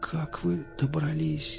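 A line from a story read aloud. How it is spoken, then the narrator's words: Whisper. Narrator (Russian): прошептал ученый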